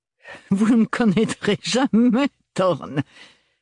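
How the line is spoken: Sneered. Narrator (French): ricana Freyja

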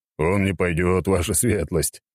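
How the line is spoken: Laughing. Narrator (Russian): рассмеялся Козырев

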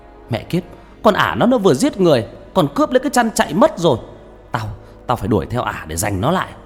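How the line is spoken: Two voices yelling together. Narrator (Vietnamese): Khanh và Toàn đồng thời gào lên

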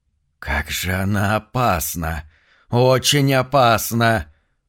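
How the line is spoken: Hissing from behind. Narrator (Russian): прошипел кто-то за спиной

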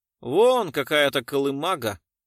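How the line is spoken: Gloomy. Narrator (Russian): мрачно кивнул Веригин

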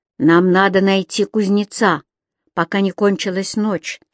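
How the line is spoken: Plain. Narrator (Russian): сказал Юм-Юм

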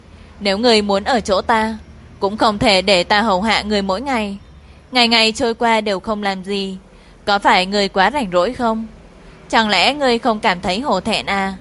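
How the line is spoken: Weary sigh, then stern. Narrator (Vietnamese): Hạ tiểu muội đỡ chán thở dài, sau đó nghiêm mặt

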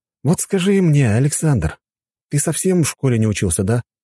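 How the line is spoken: Sighing. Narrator (Russian): вздохнул я

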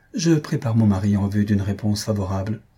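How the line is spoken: Plain. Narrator (French): répondit

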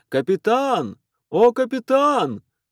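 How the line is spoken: Yelling. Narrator (Russian): Он заорал это в открытую рубку

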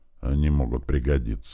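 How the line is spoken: Grumbled mutter. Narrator (Russian): буркнул Хас

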